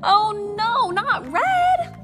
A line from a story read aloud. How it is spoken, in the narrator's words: I screamed